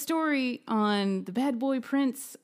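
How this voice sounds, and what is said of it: Hallmark movie narrator voice. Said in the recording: “my Hallmark voice. I'm not good at it.”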